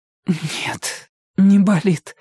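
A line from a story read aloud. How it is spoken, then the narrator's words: Breathed out. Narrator (Russian): выдохнула Ирка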